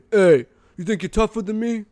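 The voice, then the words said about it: Tough-guy voice of a bar brawler. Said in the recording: “how's that impression, huh? Pretty good... That's a good impression... That's an impression of some guy who's being really tough at a bar.”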